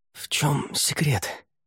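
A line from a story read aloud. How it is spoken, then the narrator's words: Whispered question. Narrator (Russian): шепотом спросил Рай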